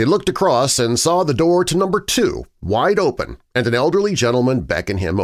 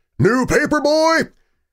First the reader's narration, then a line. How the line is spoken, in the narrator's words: another voice from across the road shouted